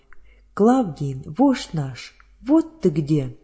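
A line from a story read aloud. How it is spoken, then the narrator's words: Excited group exclamation. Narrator (Russian): воскликнули они при виде незнакомца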